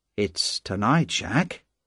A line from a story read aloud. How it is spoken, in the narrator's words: went on quietly